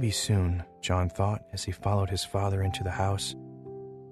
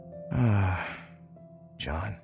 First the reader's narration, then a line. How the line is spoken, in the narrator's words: his father sighed